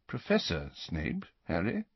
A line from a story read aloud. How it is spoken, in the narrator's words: Dumbledore corrected him quietly